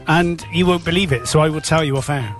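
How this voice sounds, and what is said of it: Slight Bristol accent. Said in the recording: “You said that in a bit of a Bristol accent then.”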